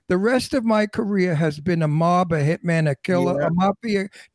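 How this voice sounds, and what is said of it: Brooklyn accent. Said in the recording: “with my Brooklyn accent”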